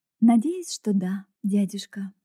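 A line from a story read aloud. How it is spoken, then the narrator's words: Soft reply. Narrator (Russian): мягко ответила она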